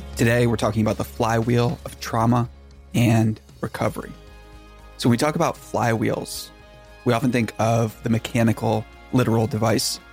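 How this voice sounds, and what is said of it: Tired, sighing, crackly voice. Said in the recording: “You hear the sigh in my voice. ... Voice is crackling. I'm tired”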